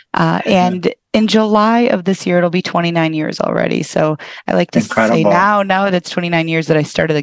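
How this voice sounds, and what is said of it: Midwestern American accent. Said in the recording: “you'll hear the Midwest accent come out”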